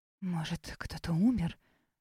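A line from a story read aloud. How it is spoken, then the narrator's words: Mother's dramatic whisper. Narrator (Russian): драматическим шепотом поделилась мыслями мама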